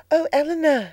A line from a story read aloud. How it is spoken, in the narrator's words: she cried